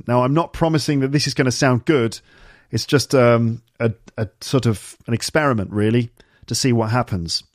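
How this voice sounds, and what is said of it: British received pronunciation accent. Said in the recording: “my accent is basically standard received pronunciation, which is said to be not specific to any region of the UK ... usually associated with educated middle-class people, probably from the southeast of England”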